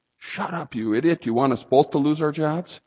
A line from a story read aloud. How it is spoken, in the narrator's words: in a very strong but a whisper